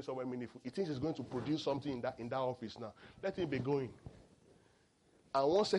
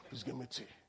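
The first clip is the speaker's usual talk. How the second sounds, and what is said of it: Deep put-on voice. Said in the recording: “You just use deep voice.”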